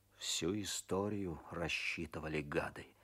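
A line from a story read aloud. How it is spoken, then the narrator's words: Muttered through teeth. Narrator (Russian): бормочет сквозь зубы Козлов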